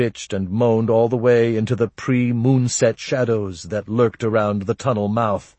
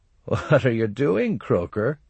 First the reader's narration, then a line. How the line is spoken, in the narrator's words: One Eye asked with suppressed laughter